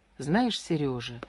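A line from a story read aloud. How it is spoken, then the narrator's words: Soft. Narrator (Russian): мягко сказала она мужу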